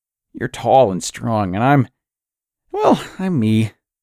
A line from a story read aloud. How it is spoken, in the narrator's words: she chuckled